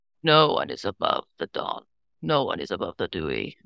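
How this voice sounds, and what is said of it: Character voice with an accent. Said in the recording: “I'm losing my accent.”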